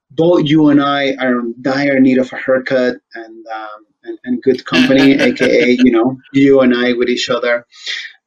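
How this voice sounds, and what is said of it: Speaks with a noticeable accent. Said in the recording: “putting up with my accent and barely understanding what it is that I'm asking you”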